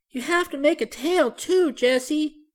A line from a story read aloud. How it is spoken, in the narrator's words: begged Benny